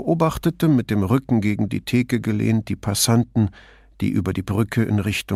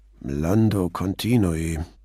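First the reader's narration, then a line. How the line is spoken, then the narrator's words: Murmur. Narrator (German): murmelte der Ispettore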